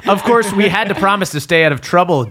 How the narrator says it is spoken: Ginny giggles

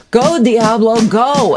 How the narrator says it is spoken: the men yell to the driver

